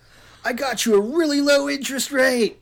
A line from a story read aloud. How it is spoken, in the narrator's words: she screamed as she leaped at him